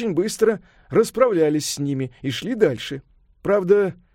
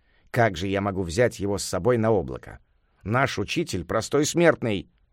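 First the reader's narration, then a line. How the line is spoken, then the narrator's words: Plain. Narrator (Russian): сказал Джубадзе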